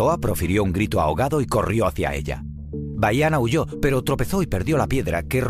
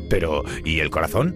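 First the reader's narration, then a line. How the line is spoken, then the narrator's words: Stammering. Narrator (Spanish): balbuceó Maui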